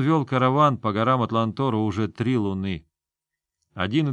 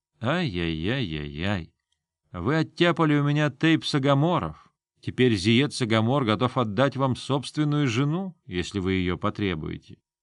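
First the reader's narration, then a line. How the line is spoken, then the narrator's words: Whispered. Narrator (Russian): прошептал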